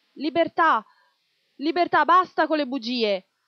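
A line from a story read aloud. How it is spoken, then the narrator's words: Crowd of youths shouting. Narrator (Italian): masse di giovani che gridavano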